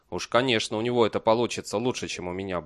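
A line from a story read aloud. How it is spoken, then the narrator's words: Muttering. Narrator (Russian): буркнул Бейли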